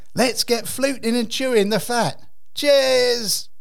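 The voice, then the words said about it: Put-on Cockney accent. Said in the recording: “with a bit of Cockney flair”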